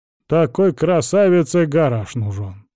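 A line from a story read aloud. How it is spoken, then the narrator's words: Grumbling old man. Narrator (Russian): пробурчал старик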